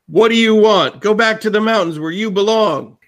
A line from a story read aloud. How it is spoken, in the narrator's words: yells down at you